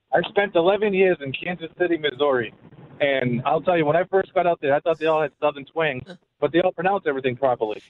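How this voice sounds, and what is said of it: Boston accent, like Matt Damon. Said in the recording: “I hear an accent. Where are you from? ... I'm from Boston, man. ... You sound like Matt Damon. ... you do have that Matt Damon thing.”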